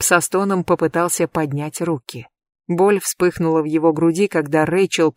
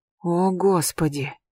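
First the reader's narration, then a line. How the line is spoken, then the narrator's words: Shocked whisper. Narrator (Russian): прошептала она, когда увидела вспухшие красные полосы, быстро синевшие по краям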